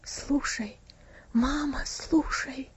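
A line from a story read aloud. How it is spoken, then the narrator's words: Whisper. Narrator (Russian): шепотом ответил Винси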